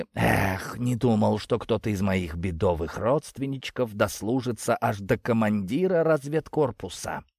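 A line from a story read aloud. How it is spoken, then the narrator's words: Admiring whisper. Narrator (Russian): Восхищенно прошептал он к моему удивлению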